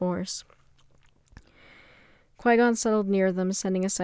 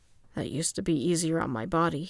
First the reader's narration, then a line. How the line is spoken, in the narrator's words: he murmured